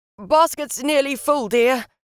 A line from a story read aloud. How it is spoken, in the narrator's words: he shouted from below